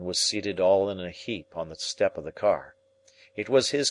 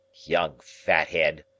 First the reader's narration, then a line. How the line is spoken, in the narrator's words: he grumbled